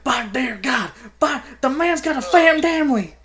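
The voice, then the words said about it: Imitates a wrestling commentator's voice. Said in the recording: “I got myself choked up trying to do the JR voice.”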